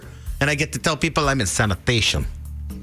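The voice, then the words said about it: Imitates a movie character's accent. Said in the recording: “With that accent, huh? ... It's from Scarface.”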